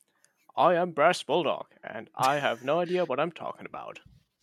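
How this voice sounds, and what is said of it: Deep voice imitating another person. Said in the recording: “your impression of me ... you got the general deepness right, but you ain't getting the tone”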